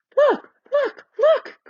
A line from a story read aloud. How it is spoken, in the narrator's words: cried Lucy